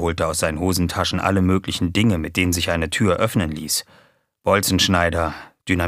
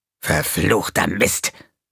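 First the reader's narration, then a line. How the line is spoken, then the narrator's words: Hissed. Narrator (German): fauchte er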